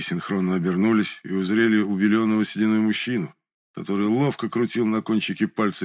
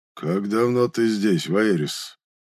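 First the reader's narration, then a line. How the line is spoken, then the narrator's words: Muffled reply. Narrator (Russian): глухо отозвался Драгор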